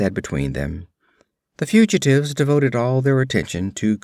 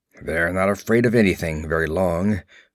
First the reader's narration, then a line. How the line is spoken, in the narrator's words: grunted Conan